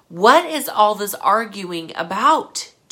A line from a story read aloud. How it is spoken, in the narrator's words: Jesus asked